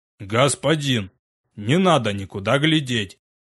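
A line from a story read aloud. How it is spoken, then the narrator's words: Worried booming big man. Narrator (Russian): это обеспокоенно прогудел здоровяк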